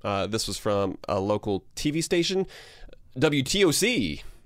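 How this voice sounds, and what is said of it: TV announcer voice. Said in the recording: “Pretty good announcer voice.”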